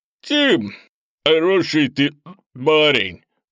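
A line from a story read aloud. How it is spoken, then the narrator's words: Drunken older man. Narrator (Russian): Пьяным тоном сообщил старший из грузчиков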